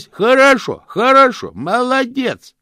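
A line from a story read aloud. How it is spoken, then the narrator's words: Loud shout. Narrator (Russian): кричал Чудакули, сложив ладони у рта для громкости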